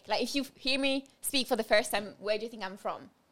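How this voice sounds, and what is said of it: Non-native English with English twang. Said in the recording (French): “your accent is very good ... not necessarily French, but I know that you're not English ... there's an English twang in there”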